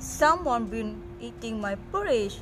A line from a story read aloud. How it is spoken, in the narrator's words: growled the papa bear